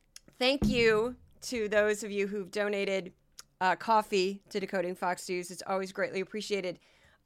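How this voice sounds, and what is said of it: Hoarse, strained, fading voice. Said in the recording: “I'm already losing my voice... I am seriously losing my voice.”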